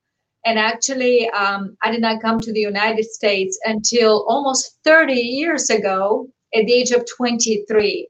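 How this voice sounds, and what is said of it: Bulgarian accent in English. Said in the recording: “you heard the accent, right? So I grew up in communist Bulgaria”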